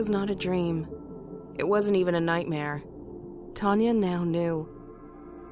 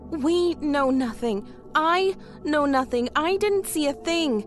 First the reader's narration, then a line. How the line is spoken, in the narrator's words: Tanya exclaimed